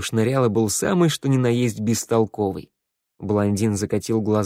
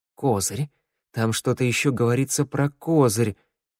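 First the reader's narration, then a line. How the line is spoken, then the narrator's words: Gruff mutter. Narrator (Russian): буркнул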